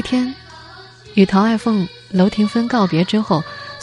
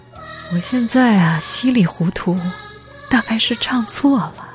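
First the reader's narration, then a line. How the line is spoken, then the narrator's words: Fading, self-mocking. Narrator (Chinese): 他的声音小了下去，自嘲了一句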